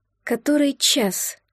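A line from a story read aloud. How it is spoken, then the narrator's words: Whisper. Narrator (Russian): прошептала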